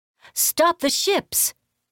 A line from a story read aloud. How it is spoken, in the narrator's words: Yun screamed into the sky